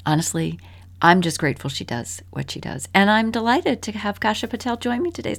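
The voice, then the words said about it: Soothing radio-style voice. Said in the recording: “great radio voice. Very soothing.”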